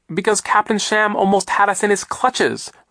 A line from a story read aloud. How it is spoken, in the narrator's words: Violet cried